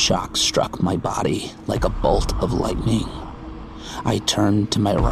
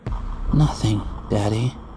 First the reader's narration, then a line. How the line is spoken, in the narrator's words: replied sleepily